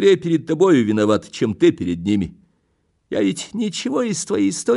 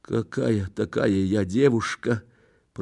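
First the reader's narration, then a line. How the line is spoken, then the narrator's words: Barely audible whisper. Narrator (Russian): прошептала она едва слышно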